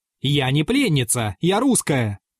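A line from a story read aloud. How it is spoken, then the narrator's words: Fierce shout. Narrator (Russian): сверкая глазами, крикнула им Ольга Вячеславовна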